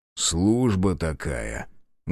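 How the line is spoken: Muffled dull reply. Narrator (Russian): глухо отозвался Безнос

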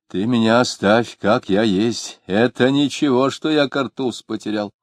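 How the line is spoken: Elderly man speaking loudly. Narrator (Russian): пожилой человек громко говорил кому-то

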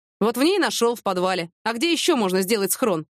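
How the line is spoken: Plain. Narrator (Russian): ответил Василий

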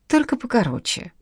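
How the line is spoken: Childish whiny, mouth full. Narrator (Russian): детским капризным голоском попросил Нежданов, жуя десятый по счету бутерброд

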